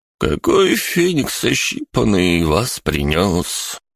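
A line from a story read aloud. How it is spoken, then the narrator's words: Sad, heavy sigh. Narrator (Russian): Грустно поинтересовался он и тяжко-тяжко вздохнул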